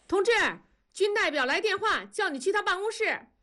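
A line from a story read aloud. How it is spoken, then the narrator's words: Distant shout. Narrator (Chinese): 远处传来了喊声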